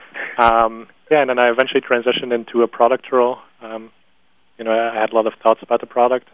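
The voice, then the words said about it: Dutch-influenced English accent. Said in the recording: “helping all of our customers in the Benelux who are using Dutch, so that's where my accent is from”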